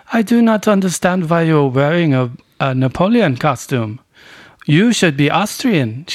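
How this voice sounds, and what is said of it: Imitated strong Austrian accent. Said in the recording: “this Austrian woman ... She's that full accent”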